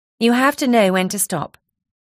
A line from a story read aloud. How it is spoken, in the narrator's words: Elvira said to her firmly